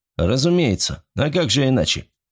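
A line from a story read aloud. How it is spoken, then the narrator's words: Cold. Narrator (Russian): холодно ответил старпом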